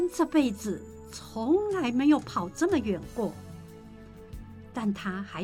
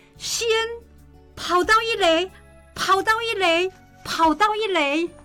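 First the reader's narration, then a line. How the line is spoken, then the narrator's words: Crowd shouting. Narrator (Chinese): 每个站在看台上的人，不管是哪一队的家长，都开始喊着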